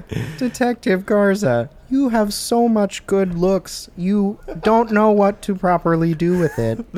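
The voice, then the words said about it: Miss Piggy impression, pig voice. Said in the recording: “That's a really good impression. ... I hated the pig voice ... I'm doing just Miss like Piggy.”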